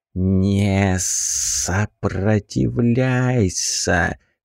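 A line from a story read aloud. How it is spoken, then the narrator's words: Hissing creature. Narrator (Russian): прошипела тварь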